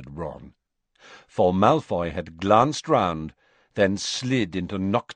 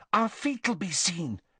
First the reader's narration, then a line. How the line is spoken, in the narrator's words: said Hermione anxiously